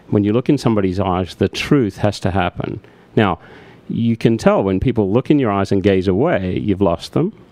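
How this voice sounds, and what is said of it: Mild Australian accent. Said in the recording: “being an Australian, having an Australian accent, living in America, although my accent is a little more muted if you ask my Australian friends”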